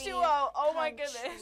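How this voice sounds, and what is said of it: Excited yelling. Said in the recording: “I'm yelling into the mic.”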